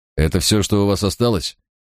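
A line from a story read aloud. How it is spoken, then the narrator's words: Hurried, tense question. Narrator (Russian): торопливо спросил я, понимая, что от моих слов зависит сейчас моя собственная жизнь и жизнь моего помощника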